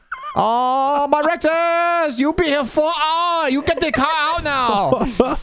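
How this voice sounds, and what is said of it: Mock Asian accent. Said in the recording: “his Asian person impersonation”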